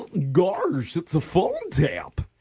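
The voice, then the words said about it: Goofy cartoon character voice. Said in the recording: “I like that impression ... a Goofy themed phone tap”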